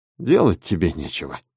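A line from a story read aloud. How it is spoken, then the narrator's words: Muttering. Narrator (Russian): бормотал Дэв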